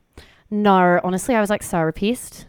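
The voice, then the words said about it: Attempted Australian accent. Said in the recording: “the only thing I can say in an Australian accent”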